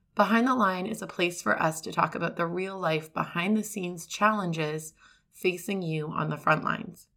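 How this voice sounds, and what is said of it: Scratchy, squeaky hoarse voice. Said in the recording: “my voice is a little bit scratchy. I've been fighting laryngitis ... you get me a little bit scratchy and squeaky today”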